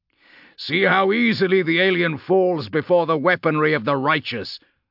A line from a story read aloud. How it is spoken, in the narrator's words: the chaplain boomed